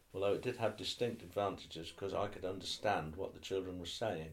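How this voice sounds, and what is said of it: Norfolk English accent. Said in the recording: “my Norfolk accent is stronger now than it was when I was teaching”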